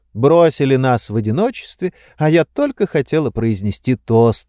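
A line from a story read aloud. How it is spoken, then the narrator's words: Laughing. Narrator (Russian): рассмеялась Сестеру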